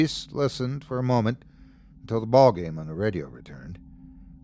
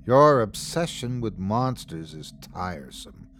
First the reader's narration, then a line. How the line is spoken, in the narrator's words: sighed his father